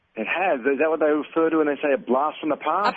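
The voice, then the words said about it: Australian accent. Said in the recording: “we Aussies ... the Americans love our accent”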